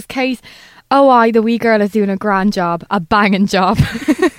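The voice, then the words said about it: Imitation of Ted's accent. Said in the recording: “I can't do his accent”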